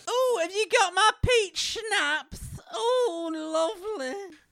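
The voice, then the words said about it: Elderly grandmother character voice. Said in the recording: “is that an impression of your grandma?”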